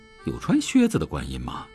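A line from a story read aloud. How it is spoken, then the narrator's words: Muttered. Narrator (Chinese): 炳坤……不由得嘟囔了一句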